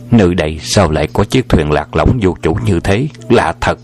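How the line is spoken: Muttering to himself. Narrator (Vietnamese): Hoàng Dược Sư lẩm bẩm tự nhủ lấy mình

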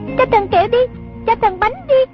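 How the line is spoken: Children's pleading chant. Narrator (Vietnamese): Chúng vừa hô, có đứa năn nỉ

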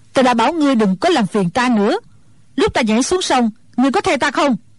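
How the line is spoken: Angry old woman. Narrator (Vietnamese): Mụ già tức giận nói

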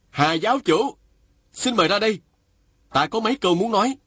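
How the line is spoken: Loud call. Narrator (Vietnamese): chàng lớn tiếng gọi

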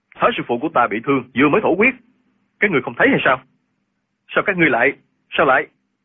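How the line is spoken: Worried, exasperated shout. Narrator (Vietnamese): Linh Hư từ đầu vẫn lo lắng cho thương thế của Thái Sư Phụ, lúc này không còn nhịn nổi nữa, quát lên

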